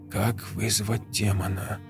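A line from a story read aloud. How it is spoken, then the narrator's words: Whisper. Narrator (Russian): прошептала Раиса, прочитывая очередную страницу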